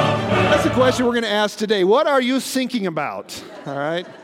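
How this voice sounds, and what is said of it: Usual voice. Nothing is said of it.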